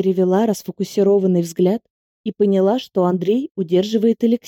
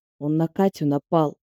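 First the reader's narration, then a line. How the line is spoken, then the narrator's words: Through gritted teeth. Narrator (Russian): процедил Алексей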